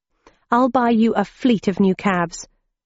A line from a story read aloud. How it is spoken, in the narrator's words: I told him somewhat urgently